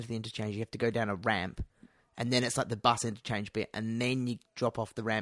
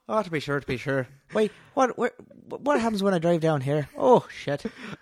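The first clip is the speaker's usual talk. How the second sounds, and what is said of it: Put-on Irish accent. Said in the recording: “Irish accent, please”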